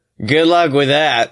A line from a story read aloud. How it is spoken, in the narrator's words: Blake laughs sarcastically